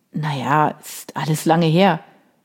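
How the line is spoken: Creaky-voiced reply. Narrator (German): worauf Vincent mit knarrender Stimme erwiderte

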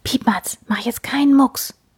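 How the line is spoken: Whispered. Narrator (German): flüstert

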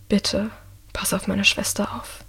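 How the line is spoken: Says quietly. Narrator (German): sagt Michael leise

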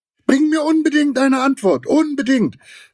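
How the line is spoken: Calling after someone. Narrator (German): rief Giraffe ihm noch nach

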